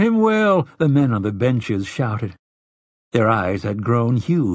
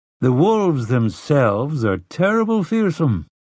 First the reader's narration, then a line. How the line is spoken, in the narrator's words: Telford went on, moving smoothly from one campfire story to the next